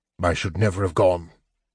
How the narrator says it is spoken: he muttered

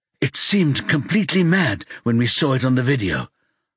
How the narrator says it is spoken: Margot says, sounding like she's panting for breath

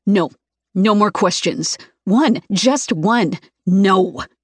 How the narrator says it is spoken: growls

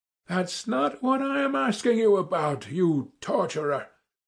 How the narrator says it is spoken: I shouted, turning crimson with anger

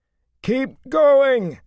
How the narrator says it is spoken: Matt bellowed

